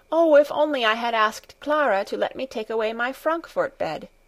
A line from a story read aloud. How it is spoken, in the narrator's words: said Heidi